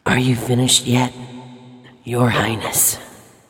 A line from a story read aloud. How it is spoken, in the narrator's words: the Cirrus rasped